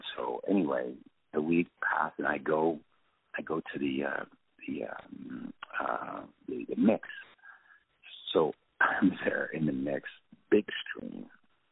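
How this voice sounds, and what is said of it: French accent in English. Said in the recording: “my first language is French, so I've got an accent”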